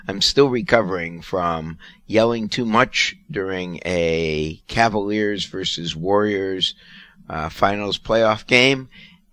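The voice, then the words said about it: Hoarse, strained voice. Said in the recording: “You'll notice I'm somewhat hoarse. ... my voice gave out ... now 2 days later, I'm barely able to”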